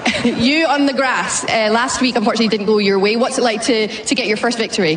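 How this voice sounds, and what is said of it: British accent. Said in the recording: “You can hear that British accent.”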